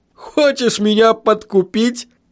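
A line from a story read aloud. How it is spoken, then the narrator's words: Laughing. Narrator (Russian): Блокер снова засмеялся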